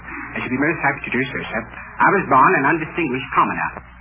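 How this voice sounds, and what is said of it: British accent. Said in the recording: “an African prince with a British accent who was born in East St. Louis”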